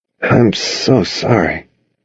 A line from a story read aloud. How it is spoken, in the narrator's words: I mumbled